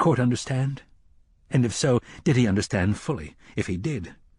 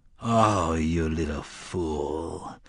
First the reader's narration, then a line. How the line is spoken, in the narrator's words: Court nearly groaned